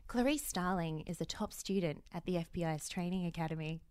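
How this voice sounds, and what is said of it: Sultry, seductive reading voice. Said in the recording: “in a sexy voice”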